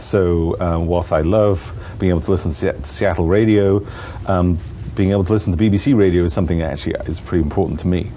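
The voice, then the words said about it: Non-local foreign accent. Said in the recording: “you can probably tell from my accent, I'm not from around here.”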